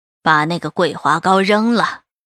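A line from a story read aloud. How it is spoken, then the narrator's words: Cold old woman ordering. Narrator (Chinese): 赵老太太冷冷的吩咐着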